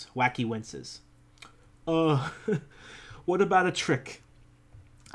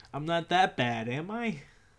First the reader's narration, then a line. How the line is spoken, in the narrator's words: Pat laughs